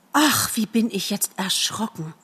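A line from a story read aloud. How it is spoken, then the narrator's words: Sighing. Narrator (German): er sagt mit einem Seufzer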